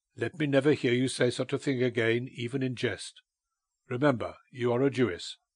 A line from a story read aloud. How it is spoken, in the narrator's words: he said sternly